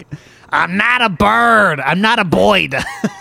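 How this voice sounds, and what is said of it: New York-accented cartoon character voice. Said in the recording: “Can you do an impression of him? ... is Toad a New Yorker too?”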